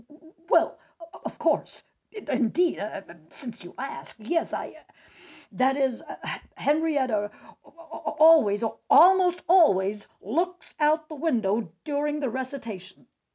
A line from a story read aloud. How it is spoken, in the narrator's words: Cardwell suddenly stopped squirming, cleared his throat, and sputtered